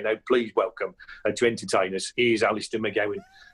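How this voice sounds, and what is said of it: Strong West Midlands accent impression. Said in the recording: “he had a very strong West Midlands accent ... such a strong accent”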